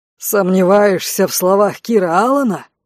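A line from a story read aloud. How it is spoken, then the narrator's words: Growled, captain. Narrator (Russian): зарычал капитан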